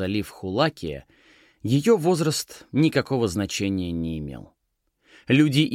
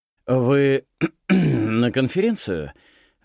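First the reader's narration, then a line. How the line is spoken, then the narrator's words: Stammering question. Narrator (Russian): запинаясь, спросил он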